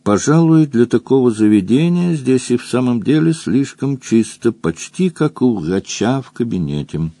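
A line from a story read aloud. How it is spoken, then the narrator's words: Calm. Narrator (Russian): Роза Рык спокойно произнесла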